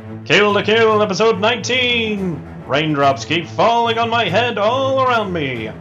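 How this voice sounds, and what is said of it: Announcer-style radio voice. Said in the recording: “do a radio voice”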